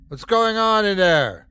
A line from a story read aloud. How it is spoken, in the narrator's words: The voice opposite the door cried out